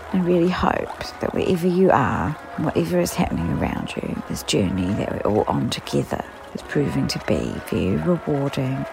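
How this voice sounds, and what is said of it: Croaky, hoarse voice. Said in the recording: “as we can all hear from my voice, I'm still in Crokey Town”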